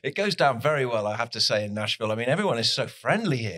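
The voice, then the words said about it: Distinctive, appealing accent. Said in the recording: “my God, the accent. I mean, you could just read off the menu and we would stay attentive ... everybody says, I love your accent.”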